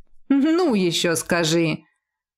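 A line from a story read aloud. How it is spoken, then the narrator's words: Grumbling with a smile. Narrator (Russian): Проворчал он, хотя и с улыбкой, которая слышалась в голосе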